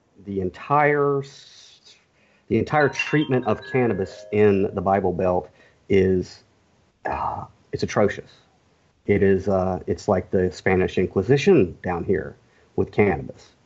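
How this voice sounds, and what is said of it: Slight Southern US accent. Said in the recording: “the tinge of Southern in my accent”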